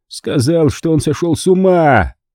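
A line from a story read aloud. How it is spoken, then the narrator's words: Growled. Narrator (Russian): прорычал Месси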